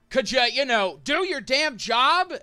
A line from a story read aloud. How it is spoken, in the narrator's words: he's gonna shout out to Kragan